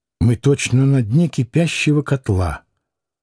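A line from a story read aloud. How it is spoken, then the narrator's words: Woman, quiet. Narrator (Russian): тихо сказала женщина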